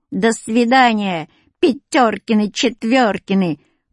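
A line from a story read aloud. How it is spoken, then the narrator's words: Sung in a funny voice. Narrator (Russian): пропела смешным голосом Люська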